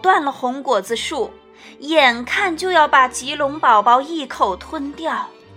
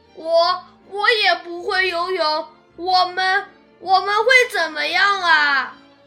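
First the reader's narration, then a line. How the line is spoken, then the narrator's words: Crying baby dinosaur. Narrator (Chinese): 棘龙宝宝哭了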